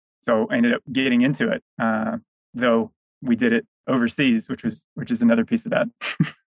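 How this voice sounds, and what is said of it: American Southern accent. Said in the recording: “your Southern accent”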